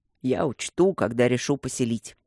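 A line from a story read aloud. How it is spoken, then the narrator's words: Ironic grumble. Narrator (Russian): пробурчал Люк с иронией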